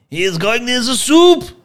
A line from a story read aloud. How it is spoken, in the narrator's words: yelled Andre